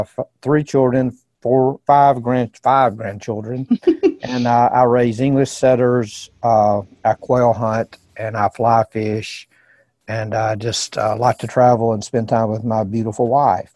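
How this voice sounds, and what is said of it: Southern American accent. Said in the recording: “I'm in Birmingham, Alabama, not Birmingham, England, as you can tell from the accent. ... The heart of the South”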